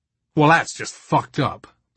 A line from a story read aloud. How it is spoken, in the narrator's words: Brian snarled back